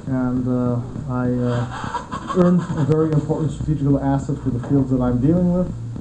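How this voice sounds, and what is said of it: American-accented English. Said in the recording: “my American accent ... I have the English with American accent”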